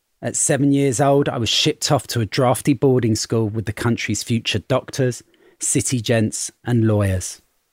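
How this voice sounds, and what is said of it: London working-class accent. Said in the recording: “my accent may sound like I'm from the rough side of London”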